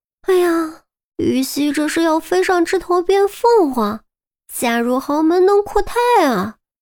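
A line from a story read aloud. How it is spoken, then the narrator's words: Sarcastic eye-rolling sigh. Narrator (Chinese): 韩淼翻了记白眼，感叹着说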